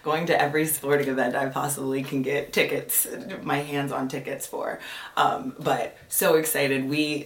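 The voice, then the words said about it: Partly lost, strained voice. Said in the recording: “My voice is a little bit gone”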